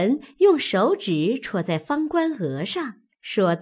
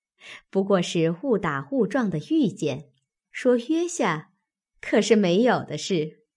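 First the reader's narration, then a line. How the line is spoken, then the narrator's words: Laughing. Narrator (Chinese): 袭人笑道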